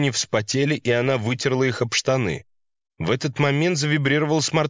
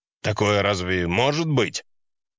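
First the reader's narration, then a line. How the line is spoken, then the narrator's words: Icy father's tone. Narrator (Russian): фраза отца была сказана таким ледяным тоном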